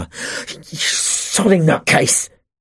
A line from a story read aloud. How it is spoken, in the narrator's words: he spat